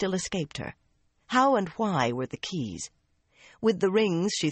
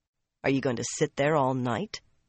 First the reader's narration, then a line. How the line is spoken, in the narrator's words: Nynaeve asked dryly